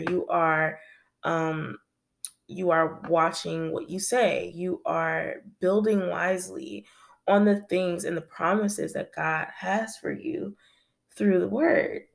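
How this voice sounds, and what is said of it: Slightly raspy voice. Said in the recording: “I'm a little raspy.”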